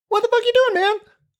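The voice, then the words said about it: Suddenly very high-pitched excited voice. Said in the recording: “my voice got really high all of a sudden. I'm just so excited”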